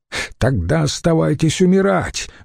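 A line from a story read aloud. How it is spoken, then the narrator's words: Shout. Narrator (Russian): выкрикнул я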